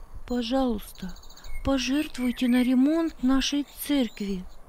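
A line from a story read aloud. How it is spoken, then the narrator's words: Timid request. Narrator (Russian): робко попросила Маргарита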